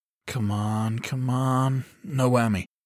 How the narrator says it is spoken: he muttered

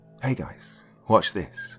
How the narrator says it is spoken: I excitedly whispered to them

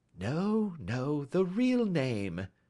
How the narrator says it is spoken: said Holmes sweetly

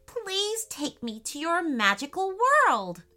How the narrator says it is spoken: exclaimed Jonah

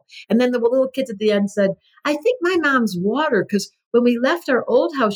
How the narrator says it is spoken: she cried

